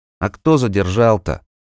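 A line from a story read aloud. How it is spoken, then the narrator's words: Grumbling. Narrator (Russian): проворчал тот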